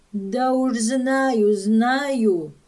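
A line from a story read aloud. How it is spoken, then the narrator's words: Plain. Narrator (Russian): сказала Катрина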